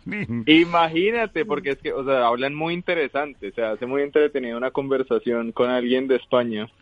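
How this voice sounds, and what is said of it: Colombian Spanish accent. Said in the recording (Spanish): “con tu acento, tío, mejor, porque el acento que tenéis los colombianos mola muchísimo”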